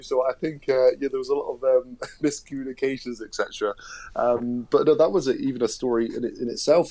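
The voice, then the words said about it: West Country English accent. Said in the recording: “What do they make of a West Country accent?”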